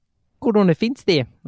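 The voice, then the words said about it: Put-on Kiwi accent. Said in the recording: “judge my Kiwi accent”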